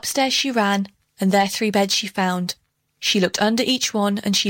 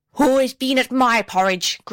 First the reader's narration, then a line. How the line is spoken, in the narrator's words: growled out Mrs